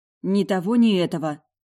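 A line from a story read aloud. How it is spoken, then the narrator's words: Grumbled mutter. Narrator (Russian): буркнула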